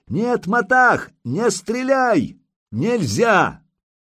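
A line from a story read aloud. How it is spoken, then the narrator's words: Shouting at full force. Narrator (Russian): Илья закричал во всю мочь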